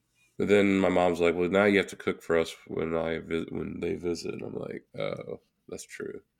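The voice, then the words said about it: Strained, worn-out voice. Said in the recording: “My voice is, I've extended my voice longer than it can go ... Your voice recovers”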